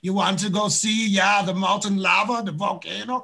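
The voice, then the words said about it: Put-on Icelandic accent. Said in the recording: “What kind of accent is that? ... That's my Icelandic accent.”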